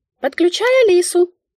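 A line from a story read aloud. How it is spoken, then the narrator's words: Squeak inside head. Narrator (Russian): пискнула в моей голове Мика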